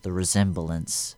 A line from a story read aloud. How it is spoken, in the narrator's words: Darth Vader said